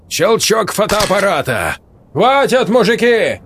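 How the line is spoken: Shouted. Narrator (Russian): крикнул кто-то

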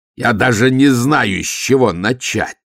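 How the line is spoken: Yelling. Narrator (Russian): заорал

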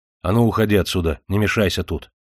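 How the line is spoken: Sharp. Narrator (Russian): Александр сказал резко

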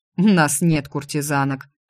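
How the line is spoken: Male snort. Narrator (Russian): фыркнул он

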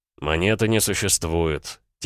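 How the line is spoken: Quiet. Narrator (Russian): тихо сказал Левинте

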